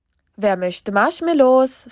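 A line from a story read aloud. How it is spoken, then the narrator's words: Cheerful grandpa asking. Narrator (German): fragte Opa fröhlich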